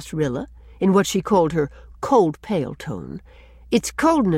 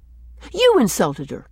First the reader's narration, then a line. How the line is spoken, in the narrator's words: she answered sharply